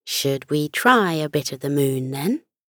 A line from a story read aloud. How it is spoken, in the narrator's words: she asked teasingly